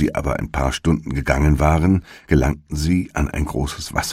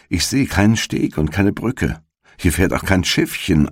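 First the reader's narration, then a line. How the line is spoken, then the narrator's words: Plain. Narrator (German): antwortete Gretel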